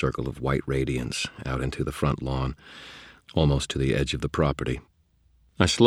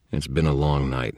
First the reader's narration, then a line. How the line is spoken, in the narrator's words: I said